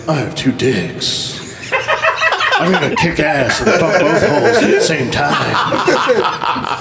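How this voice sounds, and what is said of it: Deep low voice, Duke Nukem-like. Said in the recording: “in your low voice ... That's like a Duke Nukem line.”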